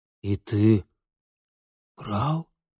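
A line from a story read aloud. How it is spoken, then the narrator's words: Faint fading voice, father. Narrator (Russian): замирающим голосом спросил отец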